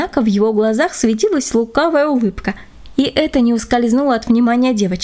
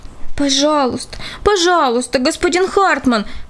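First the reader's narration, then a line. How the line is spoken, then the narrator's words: Group pleading. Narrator (Russian): взмолились они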